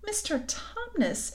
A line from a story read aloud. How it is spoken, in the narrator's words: bawled Lucy in his ear